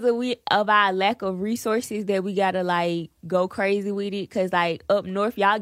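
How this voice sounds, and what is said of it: Atlanta Southern American accent. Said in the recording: “speaking of accents, how was it just growing up in Atlanta and the South ... I love your accent ... everybody in Atlanta, we sound the same ... Oh, y'all got an accent ... definitely got to accent”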